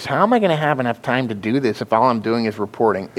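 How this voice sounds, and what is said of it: Whiny complaining voice. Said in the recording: “I actually said it in a whiny voice. ... That's exactly what it sounds like, though. Dude, you got it perfectly.”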